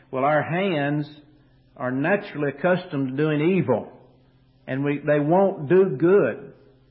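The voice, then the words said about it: Kentucky accent. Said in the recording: “maybe 20 years from now, the Kentucky accent will leave my voice. Maybe. It's doubtful.”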